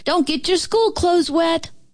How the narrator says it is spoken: our mamas opened the windows and hollered

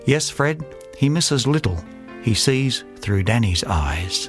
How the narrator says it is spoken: My host whispered to me as my face showed surprise

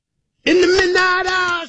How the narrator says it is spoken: she cried, more

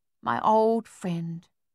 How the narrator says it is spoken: cried out softly

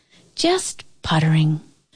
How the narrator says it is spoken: Her voice would drift back, soft as a sighing pine

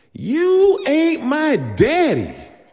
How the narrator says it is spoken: she screamed

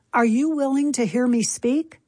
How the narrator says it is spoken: Finally, near the middle of town, exhausted, John raised his voice and yelled

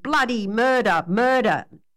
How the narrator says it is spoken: yelled the man from Ironbark

